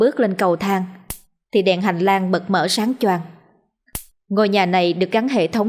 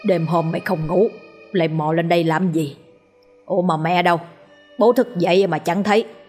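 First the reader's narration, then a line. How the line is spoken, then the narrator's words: Deep gruff voice. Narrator (Vietnamese): Người cất giọng ồm ồm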